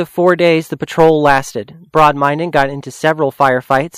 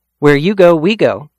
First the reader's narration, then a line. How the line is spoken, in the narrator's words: Crapeau said